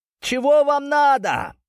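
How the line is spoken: Near-falsetto shout. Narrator (Russian): чуть ли не фальцетом выкрикнул в сторону зрителей Глеб

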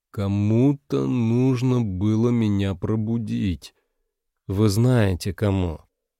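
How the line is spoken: Slow. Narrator (Russian): Медленно повторил

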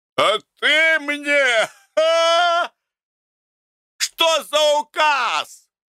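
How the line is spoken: Drunken shouting. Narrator (Russian): кричал почти не стоявший на ногах Гордей Евстратыч

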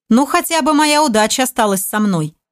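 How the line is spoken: Chuckling. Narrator (Russian): хохотнув, произнес командор

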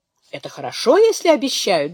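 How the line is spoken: Cheerful. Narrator (Russian): бодро говорит Беатрис

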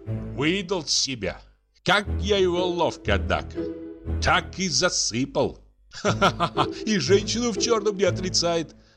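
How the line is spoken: Laughing. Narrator (Russian): засмеялся Дюковский

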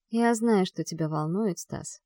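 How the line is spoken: Soft. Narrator (Russian): мягко начинаю я

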